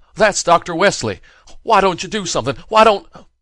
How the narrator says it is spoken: cried frantically

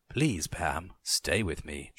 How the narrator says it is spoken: she pleaded, whispering into my ear

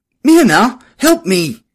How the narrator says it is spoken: cried

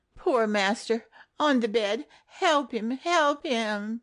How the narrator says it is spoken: moaned

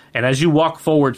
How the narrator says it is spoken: he says loudly to the courtyard

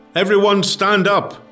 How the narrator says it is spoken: shouted one of the NCOs

